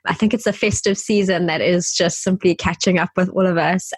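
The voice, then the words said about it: Slightly raspy, sore-throat voice. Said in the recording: “I have got a bit of a sore throat. So if you hear my voice a little bit raspy”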